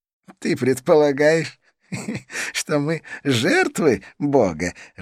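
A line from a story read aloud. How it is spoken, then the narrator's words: Laughing. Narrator (Russian): рассмеялся Идрис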